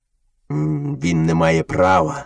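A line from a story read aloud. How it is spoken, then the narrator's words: Angry father wolf. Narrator (Ukrainian): сердито почав батько-вовк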